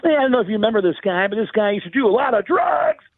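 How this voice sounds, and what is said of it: Sam Kinison impression. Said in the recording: “he has me doing Sam Kinison”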